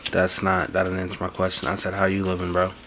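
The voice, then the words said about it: Yelling, hyped-up loud delivery. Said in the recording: “Why are you yelling, sir? ... I'm hyped.”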